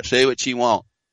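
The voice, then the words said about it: Put-on Southern US accent. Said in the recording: “I'll do it with a southern accent.”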